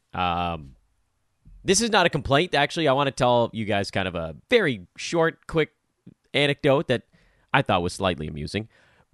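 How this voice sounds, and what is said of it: Tired, worn-out voice. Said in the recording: “I had three play by play gigs over the weekend, so you can probably hear it. my voice is a little bit tired”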